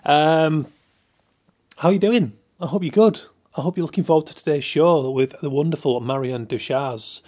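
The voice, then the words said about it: Yorkshire English accent. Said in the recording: “my crass accent ... Yorkshiremen trying to broadcast”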